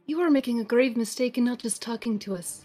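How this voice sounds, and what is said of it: Put-on Irish-sounding accent. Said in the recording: “It's a top of the morning to you kind of accent”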